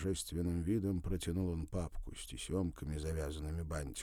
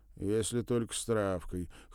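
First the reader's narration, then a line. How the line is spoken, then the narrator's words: Wry snort. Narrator (Russian): хмыкнул Вадим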